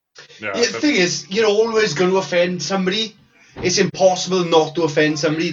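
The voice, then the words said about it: Welsh accent. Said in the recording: “you're Welsh, aren't you? ... half of the time the bastards can't understand my accent”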